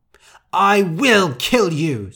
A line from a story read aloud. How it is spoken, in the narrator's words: screamed Rosa